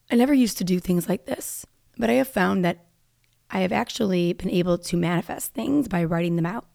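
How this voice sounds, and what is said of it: Raspy, unwell-sounding voice. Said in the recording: “my voice is obviously like raspy because I don't feel well, okay? So it doesn't usually sound like this, although it's always a little raspy.”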